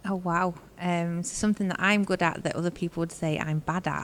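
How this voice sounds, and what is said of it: Fast-talking northern English accent. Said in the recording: “I am very much a quick talker ... my Warrington drawl, northern accent”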